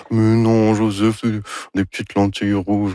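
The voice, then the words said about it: Imitates another person's voice. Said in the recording (French): “mon imitation de Anne Dorval ... Très réussi”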